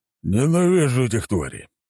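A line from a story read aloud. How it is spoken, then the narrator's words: Moaning. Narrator (Russian): простонал он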